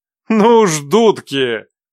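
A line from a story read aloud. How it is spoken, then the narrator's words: Laughing demon. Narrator (Russian): Не прекращал смеяться демон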